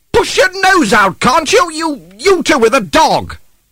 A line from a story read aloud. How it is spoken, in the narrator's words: another voice cried